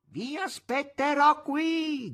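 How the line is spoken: Shouted through cupped hands. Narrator (Italian): gridò Azazello, mettendo le mani attorno alla bocca

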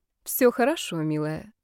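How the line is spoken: Calm reply. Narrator (Russian): спокойно отозвалась Инесса

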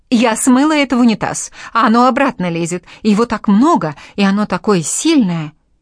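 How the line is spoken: Woman's frantic shout. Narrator (Russian): одна из ведьм закричала

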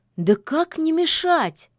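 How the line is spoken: Exclaiming witch. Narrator (Russian): воскликнула ведьма

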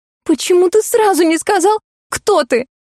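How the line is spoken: Sobbing question. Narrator (Russian): всхлипнув, спросила я

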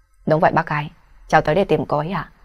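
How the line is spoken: Forced, falsely gentle tone. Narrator (Vietnamese): Đỗ Hạo Vũ cố đè xuống nỗi chán ghét vì vẻ mặt buông thõng tham lam của mẹ mặc, miễn cưỡng nở nụ cười dịu dàng dối trá nói

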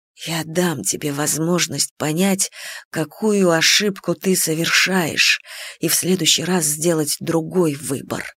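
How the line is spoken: Quiet. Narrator (Russian): тихо проговорил бог времени

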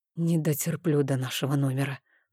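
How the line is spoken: Hoarse wheeze. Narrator (Russian): прохрипел я

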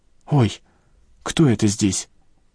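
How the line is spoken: Frightened cry. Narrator (Russian): испуганно вскрикнула Людмила

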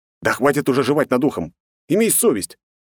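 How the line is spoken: Displeased bark. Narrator (Russian): недовольно рявкнул

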